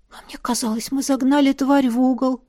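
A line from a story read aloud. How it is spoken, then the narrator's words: Bewildered whisper. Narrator (Russian): растерянно прошептала я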